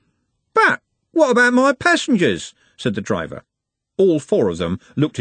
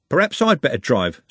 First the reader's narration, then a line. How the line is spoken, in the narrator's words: said Trev